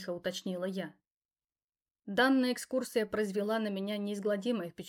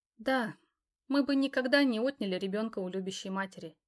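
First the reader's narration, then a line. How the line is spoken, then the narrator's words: Sighing. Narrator (Russian): девушка вздохнула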